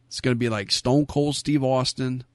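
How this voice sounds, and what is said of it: Put-on Brooklyn accent. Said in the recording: “I don't know why I said it with a Brooklyn accent there”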